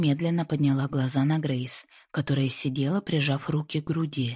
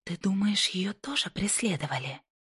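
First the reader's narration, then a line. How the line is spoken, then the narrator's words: Quiet question. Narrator (Russian): Тихо спросила Джинни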